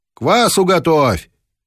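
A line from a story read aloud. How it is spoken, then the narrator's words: Shout. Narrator (Russian): крикнула она мужу через плечо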